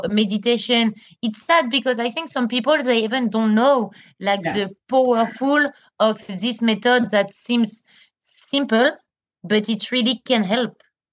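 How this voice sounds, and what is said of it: French-accented English. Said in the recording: “I hope people will understand me with my French accent... Your lovely French accent”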